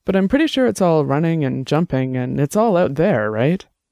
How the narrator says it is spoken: Annabelle laughed

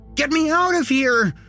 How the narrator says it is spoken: he screamed

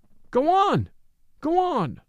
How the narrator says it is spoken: But the people cried

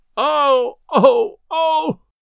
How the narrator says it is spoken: moaned Delaney

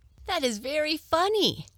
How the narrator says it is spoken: exclaimed little Ida, with glee

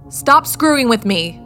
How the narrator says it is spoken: shouted towards the door

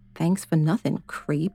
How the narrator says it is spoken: She whispered

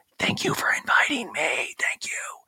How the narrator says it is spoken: Denise whispers

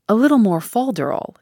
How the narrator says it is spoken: exclaimed Mr

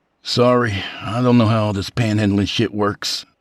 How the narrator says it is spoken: Duncan replied wearily

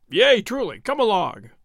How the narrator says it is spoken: said Will Stutely, gruffly

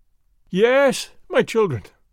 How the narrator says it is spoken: I cried

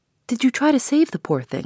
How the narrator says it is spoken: asked Laura earnestly

